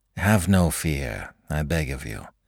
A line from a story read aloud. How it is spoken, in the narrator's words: said Herman in a calm voice